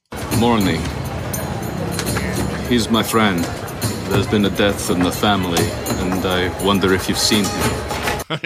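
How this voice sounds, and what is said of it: Mediocre put-on Russian accent. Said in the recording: “Russian accent ... It's not very good. It's okay.”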